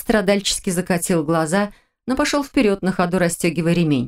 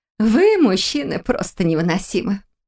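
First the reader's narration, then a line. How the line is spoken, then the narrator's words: Laughing. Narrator (Russian): Рассмеялась на это Ада Вилар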